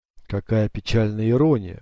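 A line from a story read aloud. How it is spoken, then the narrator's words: Breathed out. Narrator (Russian): выдохнул капитан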